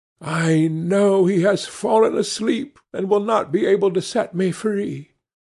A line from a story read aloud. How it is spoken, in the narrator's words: She was sadder than ever as she drove along, and said mournfully